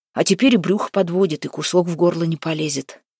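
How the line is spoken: Gruff mutter. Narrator (Russian): буркнул Демка

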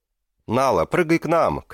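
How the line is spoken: Shouted. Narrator (Russian): крикнул Варцен

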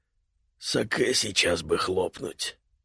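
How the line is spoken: Muttered. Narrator (Russian): пробормотал Кита

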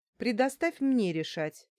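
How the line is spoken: Angry grumble. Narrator (Russian): сердито проворчала я

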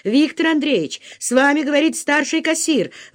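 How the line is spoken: Agitated woman speaking. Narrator (Russian): взволнованно проговорила служащая

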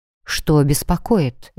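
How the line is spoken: Soft question. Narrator (Russian): мягко спросила

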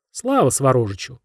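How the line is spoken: Cheerful, smiling, group of chiefs. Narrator (Russian): тоже улыбнувшись, весело ответили вожди

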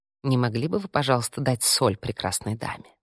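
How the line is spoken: Whispered in Italian. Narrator (Russian): на чистом итальянском прошептал

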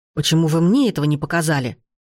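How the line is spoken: Growling. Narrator (Russian): зарычал он

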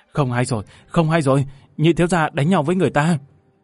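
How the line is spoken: Panicked breathless gasping. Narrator (Vietnamese): Một người áo xanh cuống cuồng thở hổn hển

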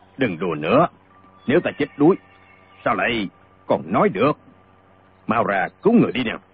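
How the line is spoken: Middle-aged man snapping. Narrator (Vietnamese): Người trung niên lại gắt lên

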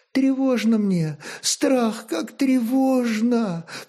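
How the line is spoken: Young woman sobbing. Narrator (Russian): всхлипнула молодая жена

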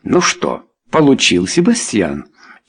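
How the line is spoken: Quiet remark. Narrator (Russian): тихо заметил Чарльз

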